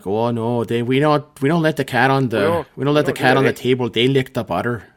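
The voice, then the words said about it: Put-on Fargo, North Dakota accent. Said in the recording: “that Fargo, North Dakota, kind of like”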